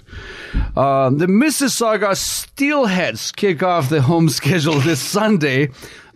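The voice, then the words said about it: Announcer-style radio voice. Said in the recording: “I'm going to put my best radio voice”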